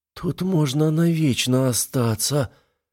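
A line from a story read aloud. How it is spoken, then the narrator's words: Euphoric moan. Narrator (Russian): простонала веганка, покачиваясь на волнах эйфории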